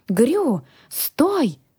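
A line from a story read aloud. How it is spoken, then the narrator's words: Stranger woman exclaims. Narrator (Russian): воскликнула незнакомка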